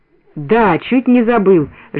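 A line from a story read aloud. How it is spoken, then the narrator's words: Lively exclamation, sudden recall. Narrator (Russian): живо воскликнул Калита, точно только что вспомнил об этом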